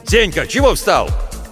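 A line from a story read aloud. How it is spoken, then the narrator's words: Displeased shout. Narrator (Russian): недовольно закричал Владимир Гаврилович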